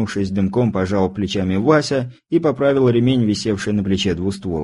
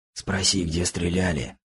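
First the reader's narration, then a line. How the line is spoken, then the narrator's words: Whisper in ear. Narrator (Russian): шепнул мне на ухо Кузнецов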